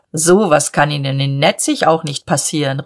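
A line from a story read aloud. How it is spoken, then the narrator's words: Proud call across table. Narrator (German): rief er voll Stolz über den Tisch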